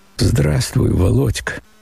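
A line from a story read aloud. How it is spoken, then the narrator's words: Weak voice. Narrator (Russian): сказал он слабым голосом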